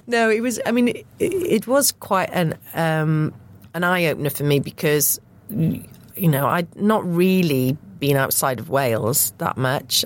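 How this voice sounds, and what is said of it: Welsh accent. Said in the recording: “I was just very conscious of my accent... there weren't any other Welsh people on my course”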